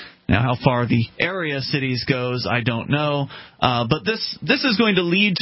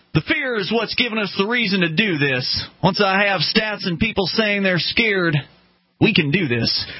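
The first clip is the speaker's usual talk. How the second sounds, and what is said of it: Put-on Southern Arkansas accent. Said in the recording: “Maybe I didn't read that in the right accent. ... Are you saying I don't have an Arkansas accent down? You're probably right about that. ... Southern accent.”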